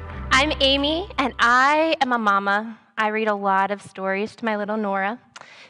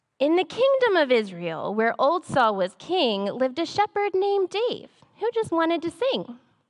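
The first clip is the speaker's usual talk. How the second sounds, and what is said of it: Storytelling mom voice reading aloud. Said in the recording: “I'm going to get on my mom voice.”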